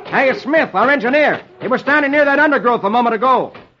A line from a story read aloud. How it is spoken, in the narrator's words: the pilot shouts